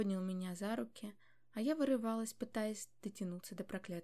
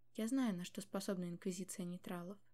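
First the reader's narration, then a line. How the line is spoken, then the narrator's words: Quiet fatherly voice. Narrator (Russian): тихо проговорил отец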